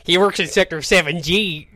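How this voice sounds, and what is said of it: Stereotypical put-on American accent. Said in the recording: “your stereotypical American accent”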